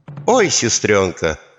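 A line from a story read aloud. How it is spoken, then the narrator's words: Mock sigh. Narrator (Russian): притворно вздохнули они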